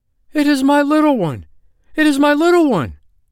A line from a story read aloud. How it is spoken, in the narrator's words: the wife of Brown Bear cried